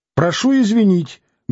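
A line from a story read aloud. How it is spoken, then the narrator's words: Loud. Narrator (Russian): громко сказала Алина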